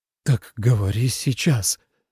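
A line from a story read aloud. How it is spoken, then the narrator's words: Breathed out. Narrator (Russian): выдохнул он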